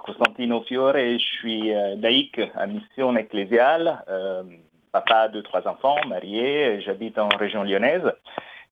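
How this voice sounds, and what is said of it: Slight Italian accent in French. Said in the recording (French): “vous allez entendre un petit accent italien, peut-être. Je suis d'origine italienne”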